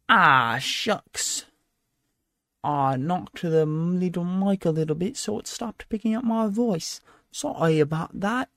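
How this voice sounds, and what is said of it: Put-on accent. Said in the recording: “I speak in an accent now”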